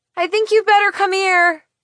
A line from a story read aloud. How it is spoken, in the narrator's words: I yell to my dad